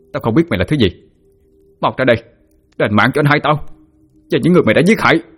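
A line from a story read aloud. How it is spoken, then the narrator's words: Shouting. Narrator (Vietnamese): hét lên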